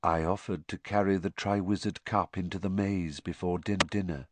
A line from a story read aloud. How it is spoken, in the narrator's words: whispered T